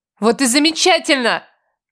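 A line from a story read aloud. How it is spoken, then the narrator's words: Shouted reply. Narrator (Russian): прокричала в ответ я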